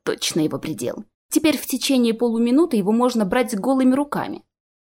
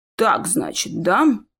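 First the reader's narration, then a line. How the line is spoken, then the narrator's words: Mumbled. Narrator (Russian): пробормотал Шинс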